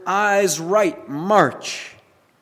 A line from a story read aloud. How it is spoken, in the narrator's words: he shouted out to his soldiers the order